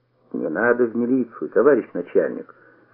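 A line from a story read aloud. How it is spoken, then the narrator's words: Ingratiating mutter. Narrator (Russian): вкрадчиво пробормотал Мендель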